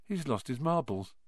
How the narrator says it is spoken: Ron muttered in Harry's ear

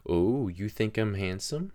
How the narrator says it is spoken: said, giggling

